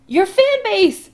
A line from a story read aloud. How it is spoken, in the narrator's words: Adam says frantically